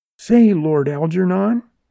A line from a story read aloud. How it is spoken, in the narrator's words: she cried